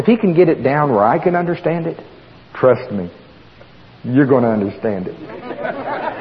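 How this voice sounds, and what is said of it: Oklahoma accent. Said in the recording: “my Oklahoma accent”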